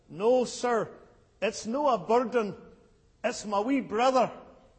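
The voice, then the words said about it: Little girl's Scottish accent. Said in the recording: “she replied in her little Scottish accent”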